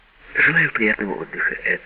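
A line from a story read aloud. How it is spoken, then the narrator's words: Calm female voice. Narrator (Russian): спокойно сказала Джина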